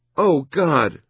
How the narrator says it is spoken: she exclaimed

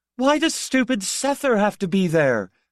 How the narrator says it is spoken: I shouted

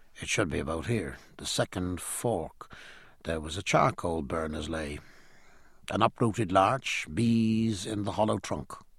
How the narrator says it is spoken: muttering

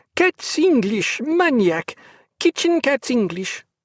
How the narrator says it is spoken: interrupted by bubbling laughter and cries of

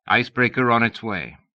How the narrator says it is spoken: Beauvoir said

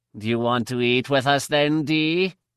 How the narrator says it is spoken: Her voice seemed unfriendly, even sneering

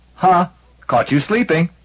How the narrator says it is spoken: had been taunted by

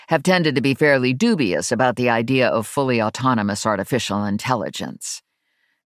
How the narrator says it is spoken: Virgil said dryly

